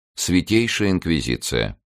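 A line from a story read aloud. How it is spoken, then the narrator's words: Icy announcement. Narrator (Russian): ледяным тоном оповестил щитовод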